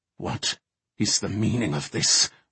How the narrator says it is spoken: Archmage Mordant demanded through gritted teeth

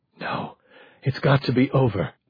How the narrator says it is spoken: Eileen whispered

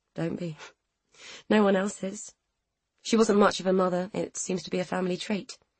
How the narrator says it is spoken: Rachel said with a wry laugh

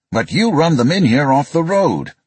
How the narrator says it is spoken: Dieslin shouted

